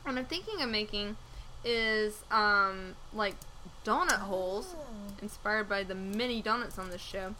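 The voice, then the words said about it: Congested, phlegmy voice from a cold. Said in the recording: “as you can hear in my voice, I've got some, like, sexy phlegm going on ... I've had a bit of a cold this week”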